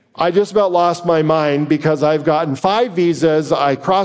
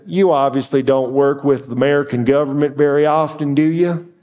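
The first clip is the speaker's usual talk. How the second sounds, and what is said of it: Exaggerated Southern American accent. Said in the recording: “classic Southern, she says to me in a very sick accent”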